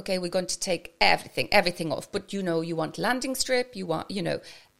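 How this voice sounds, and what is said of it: Attempted South American accent. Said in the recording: “this is my South American accent. It will probably sound like I'm from Kerry.”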